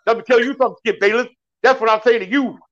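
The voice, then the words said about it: Imitates another person's voice. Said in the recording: “that is a dope Shannon Sharp impersonation ... That was awesome”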